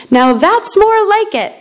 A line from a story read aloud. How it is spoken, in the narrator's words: she exclaimed